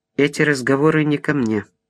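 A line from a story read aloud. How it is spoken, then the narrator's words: Dry objection. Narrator (Russian): сухо возразила Инна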